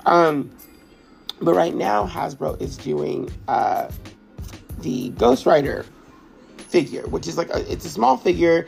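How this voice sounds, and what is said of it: Sick, under-the-weather voice. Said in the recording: “I don't know why my voice sounds like this, y'all. I might be like feeling a little under the weather.”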